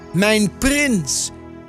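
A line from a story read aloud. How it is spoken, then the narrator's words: Calling out. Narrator (Dutch): riep Adelheid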